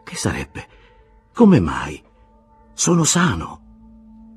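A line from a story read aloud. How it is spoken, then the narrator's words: Stammering. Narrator (Italian): Castorp balbettò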